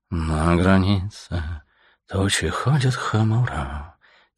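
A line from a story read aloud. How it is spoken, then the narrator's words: Soft singing under breath. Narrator (Russian): тихонько запел себе под нос свинолуп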